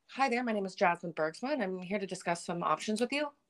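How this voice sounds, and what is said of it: Polished professional customer-service voice. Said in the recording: “I have such a professional voice ... customer service voice”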